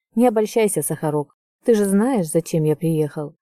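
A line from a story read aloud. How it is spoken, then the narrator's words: Indifferent tone. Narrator (Russian): равнодушным тоном бросает Кайл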